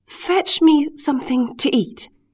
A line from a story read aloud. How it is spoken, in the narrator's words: said, in a trembling voice, for the terrible genie was glaring down upon him